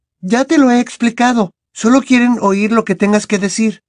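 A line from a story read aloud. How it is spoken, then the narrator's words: Reassuring voice. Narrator (Spanish): contestó Hermione con voz tranquilizadora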